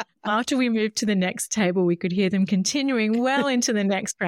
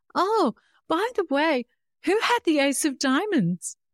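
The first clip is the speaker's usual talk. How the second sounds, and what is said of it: Innocent-sounding voice. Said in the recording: “in my best innocent voice”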